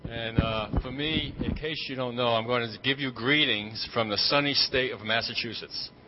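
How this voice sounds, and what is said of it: Boston accent. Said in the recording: “the New England accent is supposed to be ... a good Bostonian accent”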